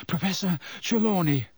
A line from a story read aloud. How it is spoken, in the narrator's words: Harry panted